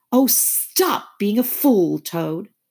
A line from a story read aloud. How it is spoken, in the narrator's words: cried the mole despairingly